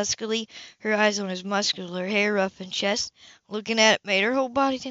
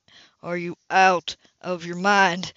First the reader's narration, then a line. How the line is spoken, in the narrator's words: he growled out